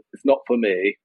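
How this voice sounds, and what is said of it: Put-on Northern English accent. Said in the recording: “using my best pan Northern English accent ... Was that authentic, Howard? ... I don't think it's Paul's area of the North. It was, as you say, a little bit Northern.”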